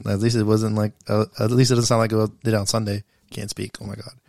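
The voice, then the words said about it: Hoarse, nearly lost voice. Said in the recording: “it's because ... sounds like that ... I lost my voice ... it sounds pretty bad ... my voice sounds pretty bad”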